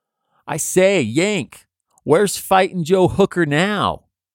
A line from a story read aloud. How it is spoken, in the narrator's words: rebel sentry might shout